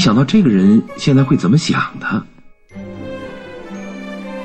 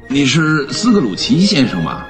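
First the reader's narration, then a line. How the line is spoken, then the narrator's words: Plain. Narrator (Chinese): 那胖先生问道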